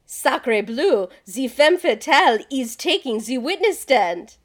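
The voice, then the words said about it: Weak put-on French accent. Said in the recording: “I just really wanted to do a French accent. It's not very good.”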